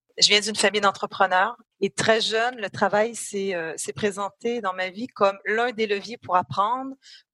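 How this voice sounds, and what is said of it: French-Canadian accent. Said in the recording (French): “ça s'entend un tout petit peu que vous faites partie de cette grande famille de nos cousins canadiens ... j'ai un accent, donc je suis canadienne. Je suis canado-française”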